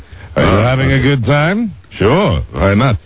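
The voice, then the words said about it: Arrogant Arnold-style German accent. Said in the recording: “is done a la Arnold ... that's kind of an arrogant delivery ... Oh, so this is all like Arnold ... the arrogant, like I'm a superstar ... dialect of the German dialect”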